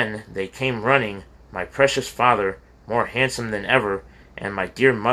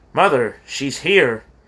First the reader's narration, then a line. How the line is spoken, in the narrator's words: he cried